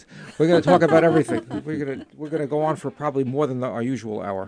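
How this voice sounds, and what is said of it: New York accent. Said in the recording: “I still have a New York accent.”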